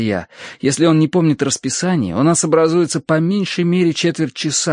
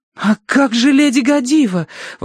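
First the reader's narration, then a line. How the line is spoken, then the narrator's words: Desperate exclamation. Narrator (Russian): в отчаянии воскликнула Верити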